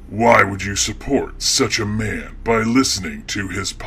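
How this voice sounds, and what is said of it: Creepy, scary character voice. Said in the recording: “creepy voice guy ... a scary voice that is meant to frighten people”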